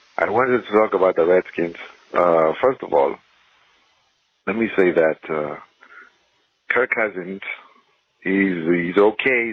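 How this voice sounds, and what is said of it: Ethiopian-accented English. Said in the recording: “I am from Ethiopia, and so excuse my accent.”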